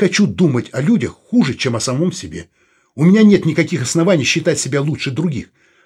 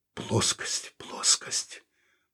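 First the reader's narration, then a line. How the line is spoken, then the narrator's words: Muttering. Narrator (Russian): пробормотал он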